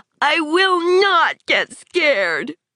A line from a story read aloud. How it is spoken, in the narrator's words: Thinking of the thing in the closet, Tad suddenly cried out with all his force